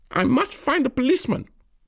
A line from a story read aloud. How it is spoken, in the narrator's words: the woman screech